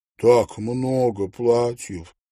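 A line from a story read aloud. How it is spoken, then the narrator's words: Sighing. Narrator (Russian): вздохнула миссис Редж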